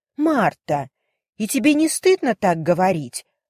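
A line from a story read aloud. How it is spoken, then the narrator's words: Exclaiming. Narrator (Russian): воскликнула мисс Гарретт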